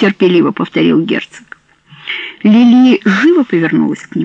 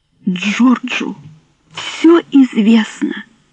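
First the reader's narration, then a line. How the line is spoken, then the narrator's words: Tearful trembling whisper. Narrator (Russian): прошептала она, губы ее задрожали, и две огромные слезы скатились по щекам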